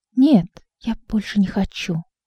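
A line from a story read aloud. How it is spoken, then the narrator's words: Refusing, quietly crying. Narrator (Russian): отказался и тихо заплакал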